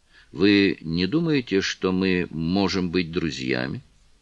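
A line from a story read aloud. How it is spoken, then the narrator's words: Very quiet question. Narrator (Russian): очень тихим голосом спросил лорд Мельбурн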